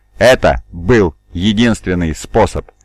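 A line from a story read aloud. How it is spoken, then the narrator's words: Laughing. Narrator (Russian): Сиватар снова рассмеялся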